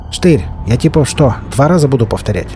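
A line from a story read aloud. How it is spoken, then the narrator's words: Gang leader barking. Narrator (Russian): Снова гаркнул главарь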